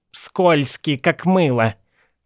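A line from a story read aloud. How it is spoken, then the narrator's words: Grumbling. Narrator (Russian): проворчала миссис Пултни Бэнкс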